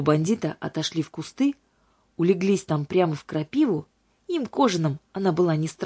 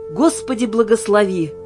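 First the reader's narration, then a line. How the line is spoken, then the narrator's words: Loud exclamation. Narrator (Russian): громко воскликнул хранитель Иоанн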